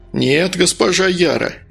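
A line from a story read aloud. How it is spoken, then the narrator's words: Cheerful reply. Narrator (Russian): весело ответил Медовар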